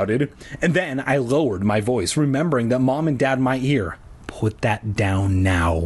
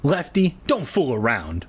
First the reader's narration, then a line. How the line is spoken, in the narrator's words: I snapped, feeling a stab of dread in the pit of my stomach